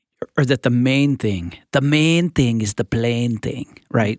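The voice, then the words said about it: Poor put-on Scottish accent. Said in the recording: “my horrible Scottish accent”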